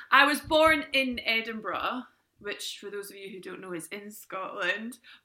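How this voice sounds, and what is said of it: Scottish accent. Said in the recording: “if we're going on accent, you're more than a bit Scottish.”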